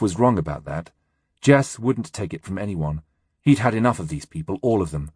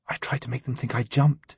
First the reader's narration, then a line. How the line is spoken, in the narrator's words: she whispered